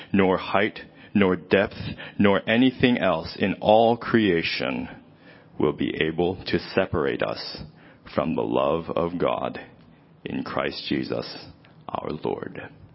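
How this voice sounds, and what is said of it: Deep reading voice. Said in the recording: “deep voice? ... Boy, I love listening to you read.”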